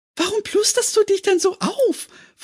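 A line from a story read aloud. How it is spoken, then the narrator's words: Giggling question. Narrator (German): fragte sie kichernd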